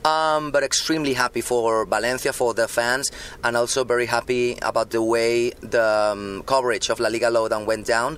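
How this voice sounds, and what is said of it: Hoarse voice. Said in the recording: “a bit hoarse, as you can listen to my voice, which is usually pretty fine, but not today.”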